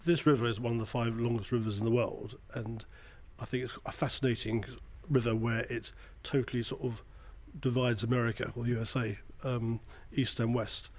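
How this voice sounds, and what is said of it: British London accent. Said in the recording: “And that accent means you're not from here. ... I'm from the other side of the pond. But London.”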